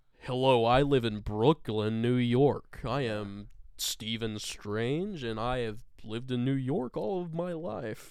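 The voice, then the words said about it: British actor faking American accent. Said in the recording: “another British guy doing a ... an American accent”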